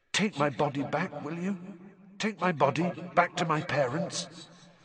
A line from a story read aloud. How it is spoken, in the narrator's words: whispered the figure of Cedric